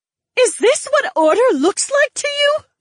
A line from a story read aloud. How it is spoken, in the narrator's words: an unseen aristocrat screamed somewhere within the crowd